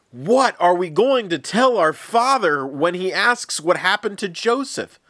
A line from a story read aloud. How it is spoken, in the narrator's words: cried out